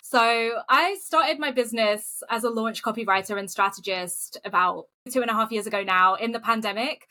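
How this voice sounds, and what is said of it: British accent. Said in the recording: “in case you can't tell from the accent, based in the UK”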